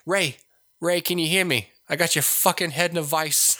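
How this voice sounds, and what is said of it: Imitates another person's voice. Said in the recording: “I thought of Joe Pesci playing the Emperor... just let him be old Joe Pesci... he's just like”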